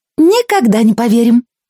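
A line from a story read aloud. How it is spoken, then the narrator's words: Squeaky voice. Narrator (Russian): пищала Сонечка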